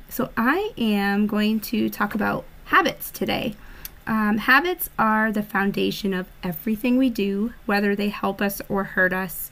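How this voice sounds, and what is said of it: Hoarse congested voice. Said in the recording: “My voice sounds horrible. I'm fighting a cold”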